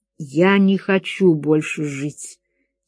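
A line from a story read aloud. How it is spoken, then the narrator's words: Quiet. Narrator (Russian): тихо сказал Гомес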